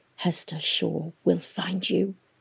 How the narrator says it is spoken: the windflower had whispered, dying

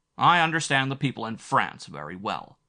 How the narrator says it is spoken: Zettner said, a little angrily

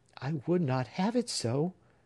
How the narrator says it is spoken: said Phoebe earnestly

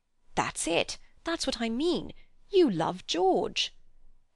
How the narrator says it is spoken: he burst out excitedly

